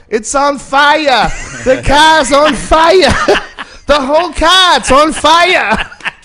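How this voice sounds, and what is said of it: Exaggerated Boston accent. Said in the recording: “This extreme Boston accent.”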